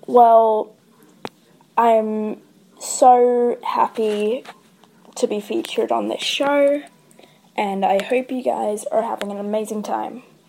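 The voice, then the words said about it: Australian accent. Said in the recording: “as you can probably tell by my voice, I'm an Aussie”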